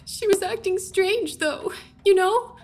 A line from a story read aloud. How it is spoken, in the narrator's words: She sobbed